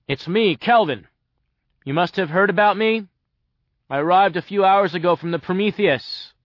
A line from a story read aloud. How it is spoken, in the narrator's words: I said loudly